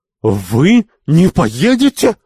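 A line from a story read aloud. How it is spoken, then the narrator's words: Exasperated shout. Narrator (Russian): закричала Сарабул, выведенная из себя этим неожиданным сопротивлением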